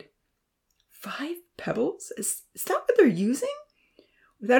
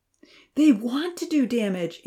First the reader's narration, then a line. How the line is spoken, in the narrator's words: Amy called out as they dashed down the hill and across the meadow